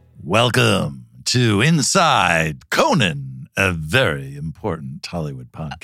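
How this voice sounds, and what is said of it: Announcer-style radio voice. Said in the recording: “radio voice”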